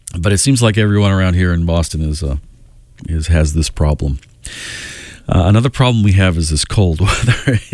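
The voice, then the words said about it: Congested, stuffy-nosed voice. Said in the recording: “Do I sound congested? My nose is like compacted and hard to breathe”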